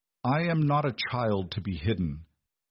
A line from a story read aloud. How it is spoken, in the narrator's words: Beatrice replied immediately, her voice steady despite the frantic beating of her heart